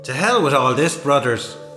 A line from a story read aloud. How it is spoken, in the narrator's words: shouted Dixie Flynn